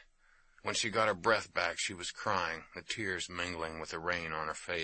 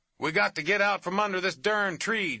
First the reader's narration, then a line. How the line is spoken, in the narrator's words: Jake yelled